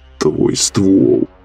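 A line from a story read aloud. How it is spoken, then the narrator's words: Groaned. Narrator (Russian): простонал Михалыч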